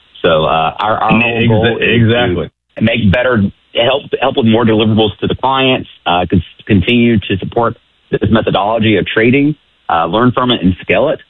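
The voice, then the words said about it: Southern American accent, fast speech. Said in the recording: “my southern accent and fast cadence of talking”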